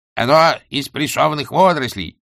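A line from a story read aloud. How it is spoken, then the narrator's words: Barked. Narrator (Russian): рявкнул главный гостеприимец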